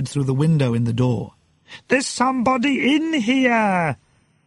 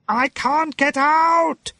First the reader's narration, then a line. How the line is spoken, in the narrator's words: He shouted